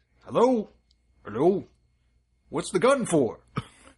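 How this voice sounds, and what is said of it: Bad Santa character voice. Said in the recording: “that was me doing a bad Santa ... your poor Santa impression”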